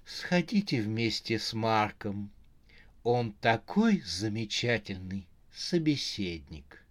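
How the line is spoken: Honeyed sweet voice. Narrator (Russian): она говорила медовым голосом

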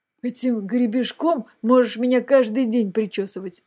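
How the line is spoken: Grumbling. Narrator (Russian): буркнула пятая

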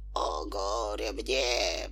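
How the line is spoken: Whispered reply. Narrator (Russian): прошептал в ответ Хатабыч

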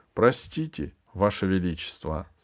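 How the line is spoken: Disguised voice, imitating another. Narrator (Russian): сказала императрица измененным голосом, подражая голосу Мерка

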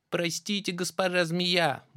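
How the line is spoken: Little mouse squeaking. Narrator (Russian): мышонок пропищал

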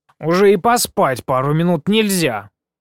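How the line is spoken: Displeased snort. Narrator (Russian): Недовольно фыркнула облачкой

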